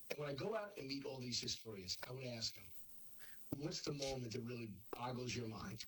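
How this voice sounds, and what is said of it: Hoarse, strained voice. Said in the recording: “losing your voice ... I'm a little hoarse”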